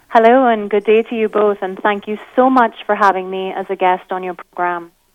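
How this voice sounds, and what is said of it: Beautiful foreign accent. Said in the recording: “Your accent is so incredibly beautiful”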